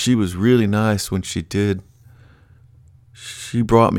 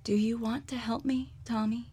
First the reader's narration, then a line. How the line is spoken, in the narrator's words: I whispered